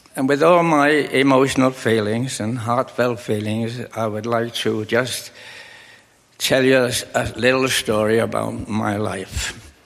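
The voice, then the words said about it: Liverpool English accent. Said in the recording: “As you probably detect, I have an accent. It's not from Manitoba. ... But it's from a famous city in England called Liverpool.”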